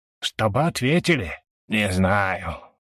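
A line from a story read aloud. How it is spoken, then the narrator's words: Doubtful drawl. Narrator (Russian): Сомнение протянул мужик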